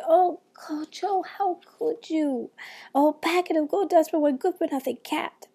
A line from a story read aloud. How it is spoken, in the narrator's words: When Tutuola saw what he had bought, she cried